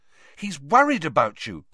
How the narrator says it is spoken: said Hermione sharply

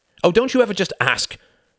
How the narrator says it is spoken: snapped Tom

